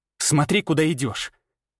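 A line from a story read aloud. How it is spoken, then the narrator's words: Sharp curt retort. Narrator (Russian): Резко бросила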